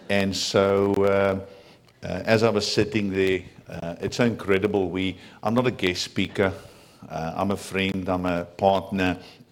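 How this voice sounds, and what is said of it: Afrikaans-accented English. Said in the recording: “if you do not understand my accent ... my first language is a very guttural Germanic kind of language called Afrikaans, like Dutch and German”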